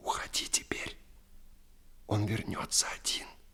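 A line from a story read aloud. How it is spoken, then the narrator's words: Whisper. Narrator (Russian): Она шепнула Ерболу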